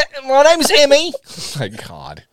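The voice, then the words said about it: Put-on British accent. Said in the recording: “You want to hear my British accent?”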